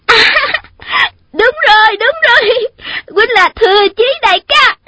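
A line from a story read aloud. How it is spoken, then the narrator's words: Overjoyed girl crying out. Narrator (Vietnamese): Thiếu nữ đó mừng quá, quên mất mình đang ở đâu, cứ nắm chặt lấy tay chàng mà la lên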